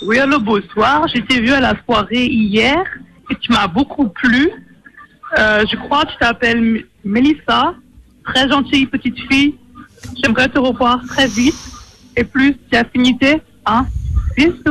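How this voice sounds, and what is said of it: Mixed Creole and German put-on accent. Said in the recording (French): “ça mélange d'accent créole, oui. D'accent créole et d'accent allemand. ... Un mélange de deux. ... C'est un allemand, mais une allemande de pointe à pitre. C'est très, très peu commun”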